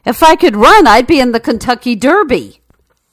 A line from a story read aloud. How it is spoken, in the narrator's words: The horse yelled back irritably